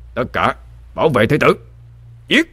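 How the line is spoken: Captain's commanding shout. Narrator (Vietnamese): Thuyền trưởng quát lên

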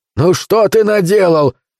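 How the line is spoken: Shouting. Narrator (Russian): кричал Каскер

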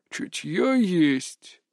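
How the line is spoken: Thoughtful old man's mutter. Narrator (Russian): задумчиво пробормотал старик

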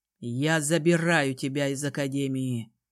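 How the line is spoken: Calm declaration. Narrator (Russian): спокойно заявил

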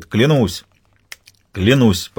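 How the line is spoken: Cheerful. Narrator (Russian): весело говорит тот

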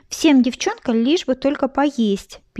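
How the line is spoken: Kitten squeak. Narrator (Russian): пискнул третий котенок

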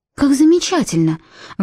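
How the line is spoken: Excited exclamation. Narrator (Russian): воскликнула Эмилин

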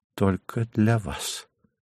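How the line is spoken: Whisper. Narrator (Russian): шепнув ему

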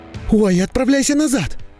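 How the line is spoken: Shocked cry. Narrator (Russian): вскрикнула Кэти-Бри, шокированная подобным зрелищем

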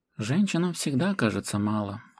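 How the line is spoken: Sad chuckle. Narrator (Russian): грустно усмехнулся Тиль

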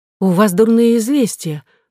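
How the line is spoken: Exclaiming. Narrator (Russian): воскликнула она

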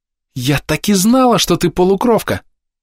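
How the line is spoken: Joyful exclamation. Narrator (Russian): радостно воскликнула Фейри

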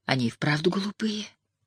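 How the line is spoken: Quiet. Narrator (Russian): тихо произнесла она

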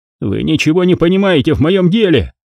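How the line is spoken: Shout. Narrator (Russian): закричал он

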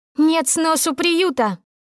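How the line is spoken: Shrill, piercing shout. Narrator (Russian): выкрикнула она звонким, режущим уши голосом

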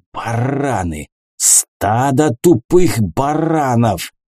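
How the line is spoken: Snake-like hiss. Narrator (Russian): Змеей шипел он

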